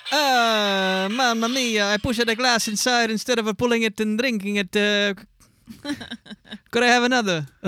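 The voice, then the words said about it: Put-on Italian accent, slipping into English. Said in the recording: “Can you say it in English with an Italian accent? ... That got all English there at the end.”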